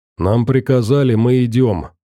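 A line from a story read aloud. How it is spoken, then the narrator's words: Indifferent tone. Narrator (Russian): равнодушным тоном сказал Борода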